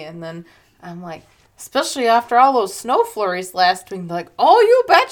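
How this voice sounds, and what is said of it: Put-on Minnesota accent. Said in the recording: “that's just how I make fun of myself. ... Accent into a Minnesota accent”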